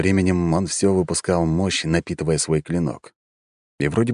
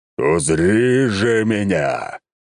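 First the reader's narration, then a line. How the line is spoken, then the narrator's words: Knight's roar. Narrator (Russian): взревел рыцарь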